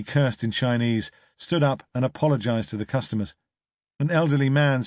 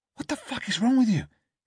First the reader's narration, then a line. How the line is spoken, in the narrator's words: hissed Jimmy